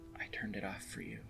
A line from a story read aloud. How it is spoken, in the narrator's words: she said quietly